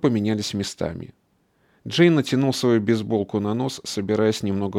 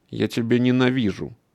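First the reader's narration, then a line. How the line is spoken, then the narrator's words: Muttered. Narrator (Russian): пробурчал Джей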